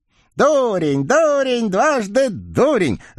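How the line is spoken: Evil spirit screaming. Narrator (Russian): завопила нечистая сила

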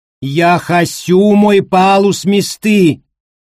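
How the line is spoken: Yelling at full voice. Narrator (Russian): заорал ПММ во весь голос

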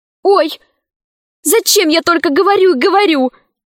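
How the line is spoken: Exclaiming. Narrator (Russian): воскликнула она

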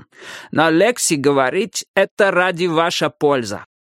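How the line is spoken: Heavy accent. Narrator (Russian): сказал он с сильным акцентом

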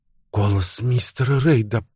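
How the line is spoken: Mumbling. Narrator (Russian): пробормотала Фреда

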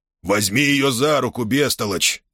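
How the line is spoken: Growled by emperor. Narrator (Russian): прорычал император

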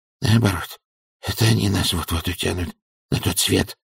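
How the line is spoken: Mumbling. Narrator (Russian): пробормотал он

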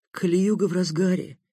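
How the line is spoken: Sad, understanding mother. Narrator (Russian): грустно сказала все понимающая мама

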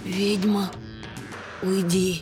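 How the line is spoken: Unexpectedly quiet plea. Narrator (Russian): Неожиданно тихо попросила графиня

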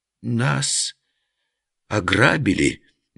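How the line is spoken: Uncertain drawl, group. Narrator (Russian): неуверенно переглядываясь, протянули все пострадавшие

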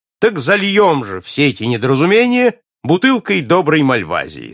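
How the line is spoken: Cheerful. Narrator (Russian): сказал весело принц

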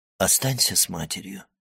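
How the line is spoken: Gentle. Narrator (Russian): ласково сказал

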